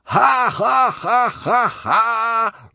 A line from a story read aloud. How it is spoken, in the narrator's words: roared the crowd